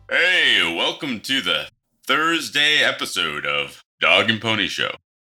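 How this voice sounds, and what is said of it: Radio DJ announcer voice. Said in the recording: “It's my DJ voice. ... so you don't have to make that voice anymore”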